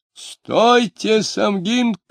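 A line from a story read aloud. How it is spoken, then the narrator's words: Shouting. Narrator (Russian): кричал Лютов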